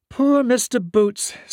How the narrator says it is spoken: sighed Miss Annie

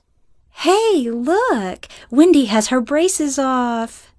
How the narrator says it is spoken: exclaimed

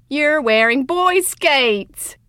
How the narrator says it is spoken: Justin screeched

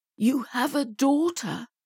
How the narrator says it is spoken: he finally stammered, his voice thick with emotion

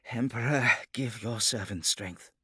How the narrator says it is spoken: he muttered

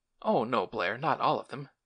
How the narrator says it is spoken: remonstrated Lane, unsteadily

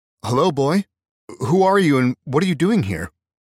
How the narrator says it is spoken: Adam called out loudly

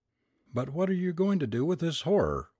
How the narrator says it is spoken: we cried

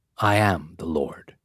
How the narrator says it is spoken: he whispered

